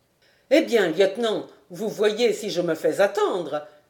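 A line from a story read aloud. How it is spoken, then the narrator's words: Exclaimed. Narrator (French): s'écria-t-il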